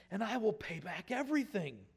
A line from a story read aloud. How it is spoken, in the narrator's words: begged